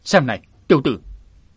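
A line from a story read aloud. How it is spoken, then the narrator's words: Sudden shout in unison. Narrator (Vietnamese): đôi phu phụ ác ma bỗng đồng loạt quát lên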